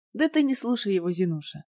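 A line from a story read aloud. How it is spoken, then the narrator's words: Soft, smiling. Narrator (Russian): мягко улыбнулся Шустов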